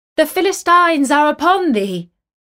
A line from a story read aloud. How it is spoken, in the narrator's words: she cried